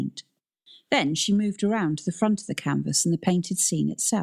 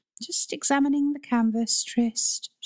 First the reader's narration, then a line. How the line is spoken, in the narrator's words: replied dreamily